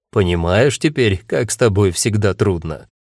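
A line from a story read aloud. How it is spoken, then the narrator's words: Speaking through laughter. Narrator (Russian): Сквозь смех сказал он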